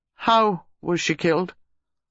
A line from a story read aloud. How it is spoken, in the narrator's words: Reeves asked stiffly